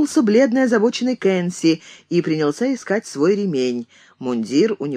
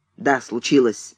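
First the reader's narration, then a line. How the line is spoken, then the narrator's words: Curt, clipped. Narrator (Russian): отрывисто сказал Кэнси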